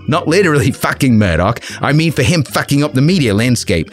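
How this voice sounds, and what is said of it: Poor put-on Australian accent. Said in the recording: “I know I keep butchering the Aussie accent”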